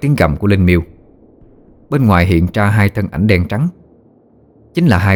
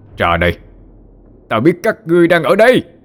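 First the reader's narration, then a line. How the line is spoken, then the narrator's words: Roaring. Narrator (Vietnamese): miệng gầm vang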